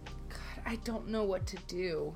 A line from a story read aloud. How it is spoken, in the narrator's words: she whimpers